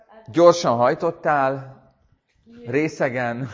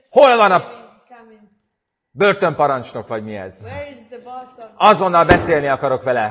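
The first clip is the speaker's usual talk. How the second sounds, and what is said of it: Booming, thundering commanding voice. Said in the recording (Hungarian): “dörgedelmes hangon”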